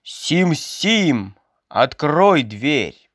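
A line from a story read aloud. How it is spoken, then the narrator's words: Loud shout. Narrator (Russian): Атаман громко крикнул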